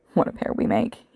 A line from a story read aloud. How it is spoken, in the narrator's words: he murmured